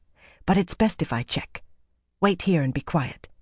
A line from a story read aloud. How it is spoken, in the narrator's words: she said softly